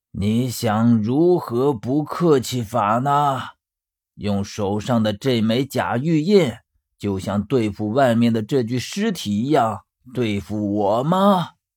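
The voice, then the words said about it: Slow, drawn-out menacing voice. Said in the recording (Chinese): “沉闷的呵呵的笑声……用拖得很长的声音说”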